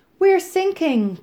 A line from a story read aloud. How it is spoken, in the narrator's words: cried